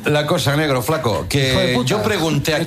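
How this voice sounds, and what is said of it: Put-on Argentine Spanish accent. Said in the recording (Spanish): “¿Te sale el acento? ... me sale el acento, che”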